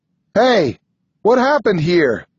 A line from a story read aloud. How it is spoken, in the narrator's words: shout